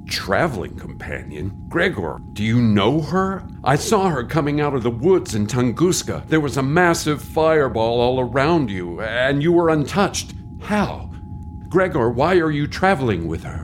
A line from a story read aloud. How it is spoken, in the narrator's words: Gregor chuckled